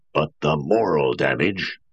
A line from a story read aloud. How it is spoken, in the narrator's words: roared Lanning